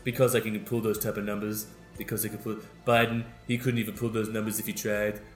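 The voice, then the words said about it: Donald Trump impression. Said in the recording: “That's my Donald Trump impression.”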